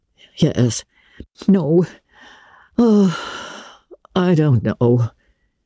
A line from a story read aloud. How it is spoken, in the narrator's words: said Marilla wearily